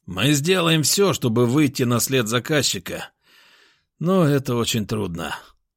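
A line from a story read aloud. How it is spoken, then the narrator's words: Heavy sigh. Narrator (Russian): тяжело вздохнул Гаврилов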